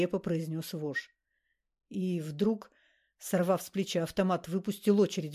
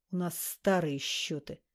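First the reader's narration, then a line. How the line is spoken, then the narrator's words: Hissing menacing voice. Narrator (Russian): свистящим недобрым голосом объяснил вошь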